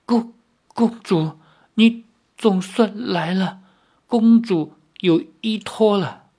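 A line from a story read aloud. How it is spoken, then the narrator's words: Trembling, deeply moved. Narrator (Chinese): 姥姥内心激动，百感交集，颤声说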